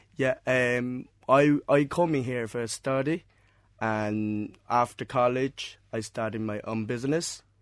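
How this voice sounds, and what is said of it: Non-local foreign accent. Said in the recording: “From your accent, I'm presuming that uh, people are going to pick up that you're not from Cork originally”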